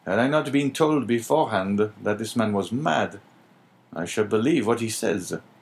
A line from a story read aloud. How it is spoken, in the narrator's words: said the inspector in a low tone